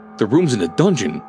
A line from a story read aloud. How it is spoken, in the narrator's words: exclaimed Dr